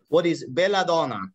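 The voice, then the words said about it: Put-on Italian accent. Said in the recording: “With the Italian accent and everything.”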